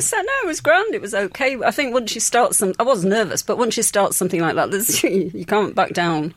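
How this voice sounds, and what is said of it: English Yorkshire accent. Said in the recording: “That accent tells us, of course, you are from England... Yorkshire”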